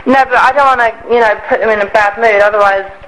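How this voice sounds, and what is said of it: English accent. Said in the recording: “my accent and the fact that I'm from England”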